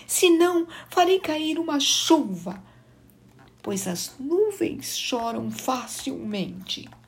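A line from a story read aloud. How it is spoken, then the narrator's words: Moaning cloud. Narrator (Portuguese): gemeu a nuvem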